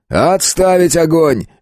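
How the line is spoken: Barked. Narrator (Russian): рявкнул я

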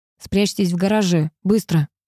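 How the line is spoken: Through gritted teeth. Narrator (Russian): процедил сквозь зубы он

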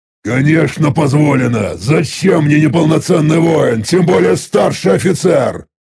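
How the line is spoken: Loud answer. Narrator (Russian): Ответил я громко

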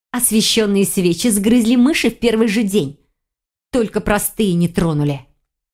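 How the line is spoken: Angry growl. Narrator (Russian): Зло рыкнула Файона

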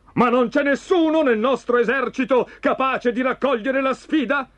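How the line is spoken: Shouting. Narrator (Italian): gridava

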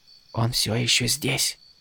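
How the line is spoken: Anxious whisper. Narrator (Russian): встревоженно прошептал Спрэн

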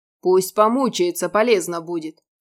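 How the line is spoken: Amused snort. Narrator (Russian): фыркнул Радмир, чувствуя, как настроение поднялось

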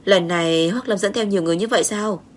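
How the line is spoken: Sighing question. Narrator (Vietnamese): thở dài hỏi

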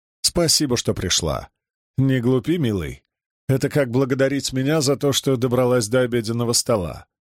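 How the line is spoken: Plain. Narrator (Russian): ответила Клара

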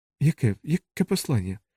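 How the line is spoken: Whispered. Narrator (Ukrainian): зашепотіла Бі

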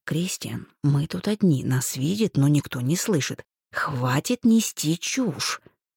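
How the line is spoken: Embarrassed hiss. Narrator (Russian): смущенно прошипела я

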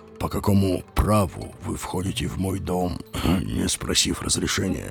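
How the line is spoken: Quiet and clear. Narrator (Russian): Говорил он тихо и внятно

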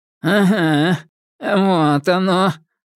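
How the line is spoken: Rat-creature's nasal voice. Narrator (Russian): прогнусавил крысун

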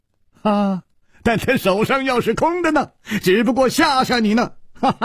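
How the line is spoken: Sudden laugh. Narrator (Chinese): 楚留香忽然笑了

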